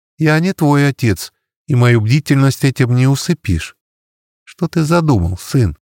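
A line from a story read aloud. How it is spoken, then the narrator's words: Sighing. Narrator (Russian): Сергей вздохнул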